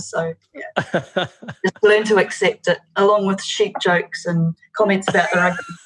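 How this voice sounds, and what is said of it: New Zealand accent. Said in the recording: “your Kiwi accent”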